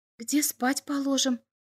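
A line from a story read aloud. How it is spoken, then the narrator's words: Whispered question. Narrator (Russian): шепотом спросила зонда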